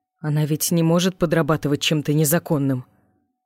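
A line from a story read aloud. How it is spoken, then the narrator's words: Trembling voice. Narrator (Russian): дрожащим голосом спросил папа Акари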